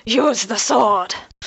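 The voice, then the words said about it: Scottish dwarvish put-on accent. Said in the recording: “Scottish ... kind of dwarvish accent”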